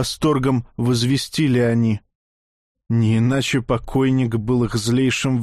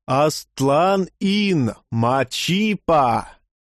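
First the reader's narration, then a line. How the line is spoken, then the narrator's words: Crowd roaring. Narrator (Russian): взревела толпа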